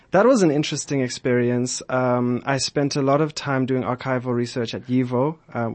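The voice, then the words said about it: South African accent. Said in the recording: “Were you raised in South Africa? ... Joburg, born and raised ... that's my accent.”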